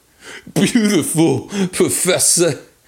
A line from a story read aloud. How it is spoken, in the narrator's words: he howled